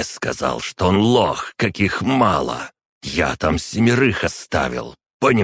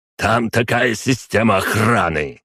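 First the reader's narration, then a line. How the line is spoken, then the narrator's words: Bark. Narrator (Russian): рявкнул Шпеер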